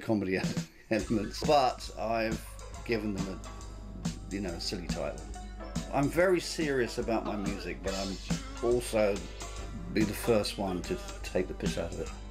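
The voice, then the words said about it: London accent. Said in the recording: “he grew up in London, as you can probably hear from his accent”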